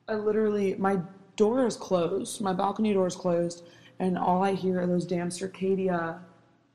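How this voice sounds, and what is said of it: Strained, fading voice. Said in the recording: “I feel like I'm losing my voice.”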